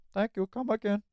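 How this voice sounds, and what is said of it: Apu from The Simpsons impression. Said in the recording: “Apu's voice... an impression of a voice actor's impression of an Indian man... That's my Apu impression.”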